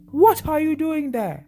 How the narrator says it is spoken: The black man raised his hands and shouted loudly

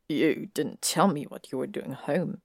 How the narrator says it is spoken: Malfoy muttered

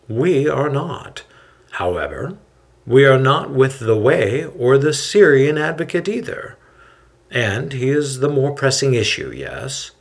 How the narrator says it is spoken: Hillel calmly replies

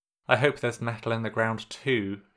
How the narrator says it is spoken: he mutters

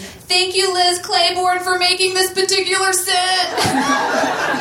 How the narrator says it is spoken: they both shouted simultaneously

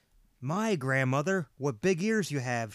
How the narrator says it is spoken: she said

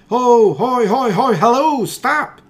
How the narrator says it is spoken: he cried

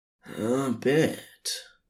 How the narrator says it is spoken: Crowley rasped

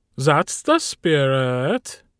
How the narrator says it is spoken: Carl said cheerfully

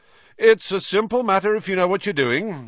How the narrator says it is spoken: Lockhart was saying loudly to Hagrid

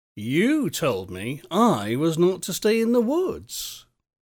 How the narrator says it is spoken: said the boy calmly

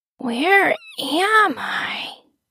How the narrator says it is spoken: He mumbled

